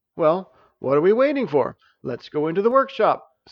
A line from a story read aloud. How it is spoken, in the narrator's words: Stavius cheerfully replied